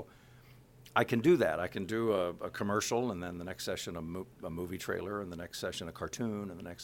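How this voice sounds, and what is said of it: Usual voice. Nothing is said of it.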